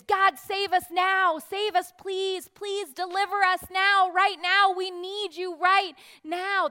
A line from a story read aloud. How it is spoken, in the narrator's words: what they're shouting